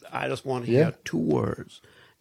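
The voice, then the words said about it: Imitates another person's voice. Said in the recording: “That's a good impression. ... Yeah, that's a good impression.”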